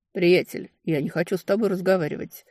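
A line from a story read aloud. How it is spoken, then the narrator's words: Calm dismissal. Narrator (Russian): спокойно послал к великим праотцам своего питомца Элрой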